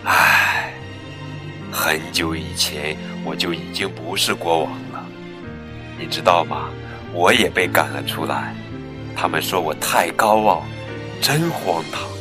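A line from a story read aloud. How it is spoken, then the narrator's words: Sighing lion. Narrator (Chinese): 狮子叹了口气说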